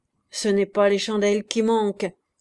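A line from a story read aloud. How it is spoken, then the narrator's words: Annoyed grumble. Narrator (French): grogna Jean, ennuyé de ce plein jour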